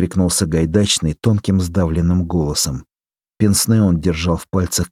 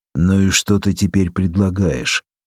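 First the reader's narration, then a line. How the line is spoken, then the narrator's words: Gloomy question. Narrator (Russian): мрачно спросил Глумский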